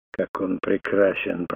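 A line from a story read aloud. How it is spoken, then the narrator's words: Muttered. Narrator (Russian): пробормотал Фунгабера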